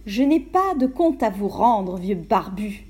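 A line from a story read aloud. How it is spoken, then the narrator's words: Contemptuous reply. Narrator (French): répondit-elle d'un ton méprisant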